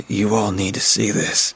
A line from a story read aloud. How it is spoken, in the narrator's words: he said, his voice full of anxiety